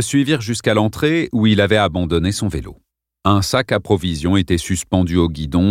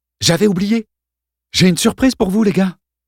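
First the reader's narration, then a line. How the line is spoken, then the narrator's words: Sudden exclamation. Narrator (French): s'écria soudain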